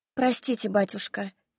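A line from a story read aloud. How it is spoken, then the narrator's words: Said quietly. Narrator (Russian): тихо проговорила я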